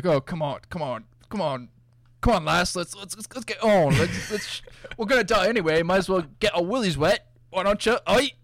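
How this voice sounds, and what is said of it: Impression of a movie character. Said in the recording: “it doesn't even sound like him... It's awful... that was pretty good... my attempt to do an impression of him... It's pretty close. He sounds absurd.”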